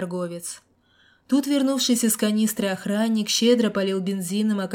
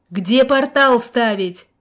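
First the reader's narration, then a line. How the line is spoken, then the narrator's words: Yelling over wind. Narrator (Russian): перекрикивая гул ветра, вдруг заорал из своего аквариума колдун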